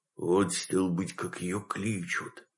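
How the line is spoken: Whispering. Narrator (Russian): прошептал Митя

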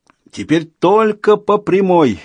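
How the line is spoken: Shouting. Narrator (Russian): закричал Людзе

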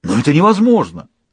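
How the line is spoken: Exclaiming. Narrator (Russian): воскликнул главный прислужник

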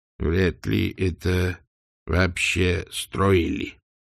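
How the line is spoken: Quiet mutter. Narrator (Russian): тихо пробормотал Сдумс

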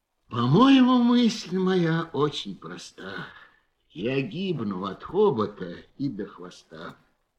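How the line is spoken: Weary repetition. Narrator (Russian): слон все сидел и устало твердил

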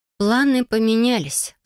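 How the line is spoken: Sighing. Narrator (Russian): вздохнула я

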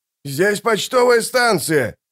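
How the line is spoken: Shouting from behind counter. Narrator (Russian): закричал из-за стойки почтмейстер

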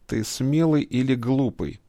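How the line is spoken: Through gritted teeth. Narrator (Russian): цедит сквозь зубы Ваха

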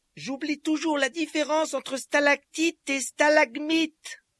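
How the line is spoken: Shouting over rattling noise. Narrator (French): cria Harry pour couvrir le bruit du wagonnet

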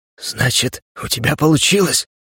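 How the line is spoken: Hoarse rasp. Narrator (Russian): прохрипел он

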